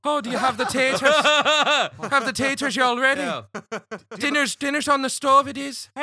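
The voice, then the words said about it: Put-on Irish accent with Southern slang. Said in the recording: “Give an Irish accent and then every once in a while I'll say, y'all.”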